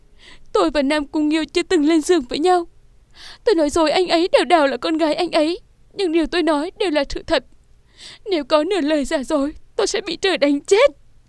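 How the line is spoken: Tearful, choked voice. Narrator (Vietnamese): Nam Cung Vũ Nhi ướt đẫm nước mắt, nghẹn ngào nói

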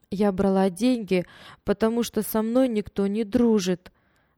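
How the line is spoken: Trembling young girl. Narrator (Russian): дрожащим голосом объяснила девочка

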